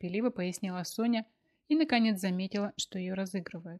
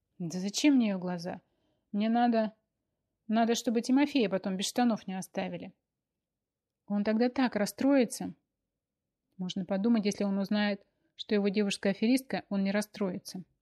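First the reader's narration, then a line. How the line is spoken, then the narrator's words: Scoffing. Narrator (Russian): хмыкнул Вадим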